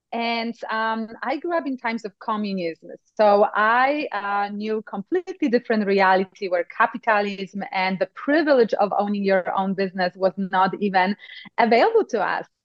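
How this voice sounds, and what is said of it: Polish Eastern European accent. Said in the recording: “I come actually from Poland. So if you were thinking this is an Eastern Texas accent, you were close, but not quite. It's Eastern Europe.”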